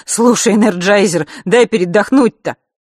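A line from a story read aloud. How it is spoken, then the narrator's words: Laughing plea. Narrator (Russian): Сережа взмолился, смеясь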